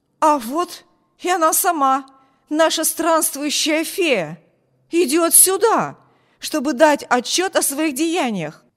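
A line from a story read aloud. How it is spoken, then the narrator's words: Exclaimed. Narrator (Russian): Воскликнул он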